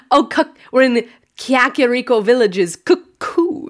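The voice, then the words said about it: Impression of co-host saying cuckoos. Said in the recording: “your impression of me saying cuckoos”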